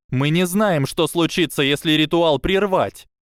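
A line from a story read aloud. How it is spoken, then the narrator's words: Shouting. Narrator (Russian): Дафна крикнула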